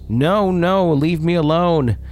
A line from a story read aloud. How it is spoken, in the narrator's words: screaming at the top of his lungs